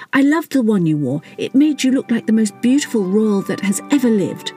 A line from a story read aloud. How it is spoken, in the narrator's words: stammered Teddy